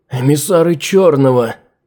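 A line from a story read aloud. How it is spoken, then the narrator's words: Pained strained words. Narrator (Russian): Выдавил из себя через боль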